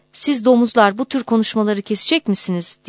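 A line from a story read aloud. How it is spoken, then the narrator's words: Shouting. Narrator (Turkish): diye bağırdı Fatma el-İntizami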